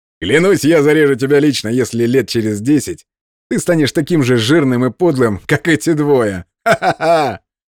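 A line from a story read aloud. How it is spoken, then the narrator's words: Loud laughter. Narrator (Russian): громко рассмеялся Рапсак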